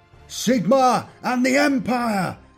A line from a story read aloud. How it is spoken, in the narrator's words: shouted